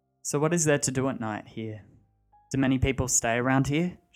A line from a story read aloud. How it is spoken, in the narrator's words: she asked